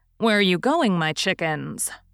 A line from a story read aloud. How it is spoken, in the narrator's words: asked Mrs